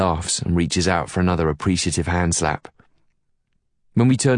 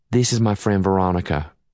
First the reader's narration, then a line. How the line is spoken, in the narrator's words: Anna says in a level voice